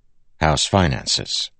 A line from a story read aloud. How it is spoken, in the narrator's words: he said flatly